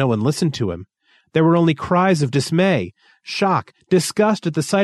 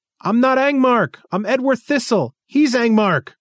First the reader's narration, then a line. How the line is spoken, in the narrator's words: Thistle feebly cried out